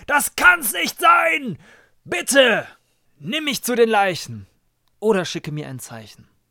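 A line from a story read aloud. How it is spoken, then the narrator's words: Shouting into a storm. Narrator (German): Im schweren Sturm mit Gott allein schrie er hinaus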